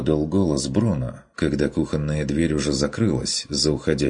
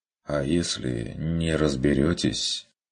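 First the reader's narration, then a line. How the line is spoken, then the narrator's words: Quiet clarifying question. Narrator (Russian): уточнил Вилли тихо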